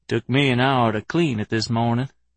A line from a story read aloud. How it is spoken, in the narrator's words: he said grimly